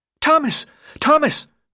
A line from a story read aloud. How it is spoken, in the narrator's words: the boy shrieked as he ran toward him, his face lit up with excitement